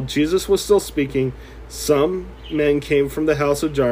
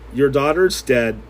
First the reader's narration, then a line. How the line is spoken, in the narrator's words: they said